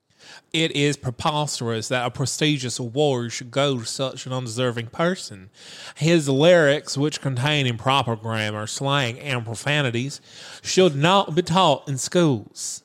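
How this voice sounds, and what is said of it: Put-on accent. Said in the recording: “Excellent choice on the accent”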